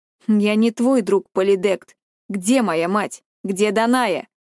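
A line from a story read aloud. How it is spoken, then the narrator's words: Plain question. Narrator (Russian): спросил Персей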